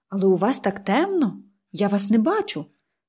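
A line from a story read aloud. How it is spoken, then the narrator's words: Exclaimed. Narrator (Ukrainian): вигукнула вона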